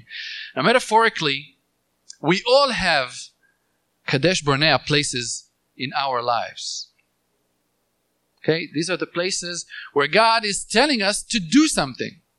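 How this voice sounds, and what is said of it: Speaks English with an accent. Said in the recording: “Probably I'm saying it in a funny way with my accent”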